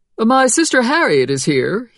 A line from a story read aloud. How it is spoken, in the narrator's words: he said in a cheerful tone